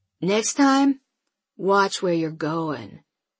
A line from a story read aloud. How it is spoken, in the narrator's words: he says, his voice cool and controlled